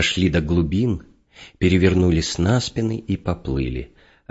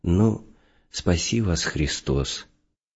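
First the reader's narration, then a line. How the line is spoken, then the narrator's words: Sad, resigned. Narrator (Russian): Мужичок, видя, что нас уже не остановить, сказал печально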